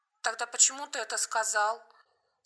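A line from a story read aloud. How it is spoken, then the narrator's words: Thin trembling question. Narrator (Russian): спросила тонким дрожащим голосом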